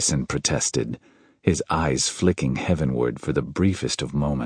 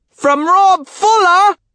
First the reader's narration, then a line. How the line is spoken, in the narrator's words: piped a voice from the end of the table